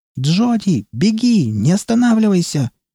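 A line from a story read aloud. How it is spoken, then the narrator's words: Shrill scream. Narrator (Russian): пронзительно завопила она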